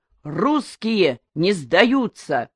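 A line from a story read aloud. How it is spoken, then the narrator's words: Sailors bellowing together. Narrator (Russian): Моряки как гаркнут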